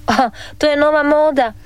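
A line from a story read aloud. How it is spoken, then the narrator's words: Laughing father. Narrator (Croatian): nasmija se tata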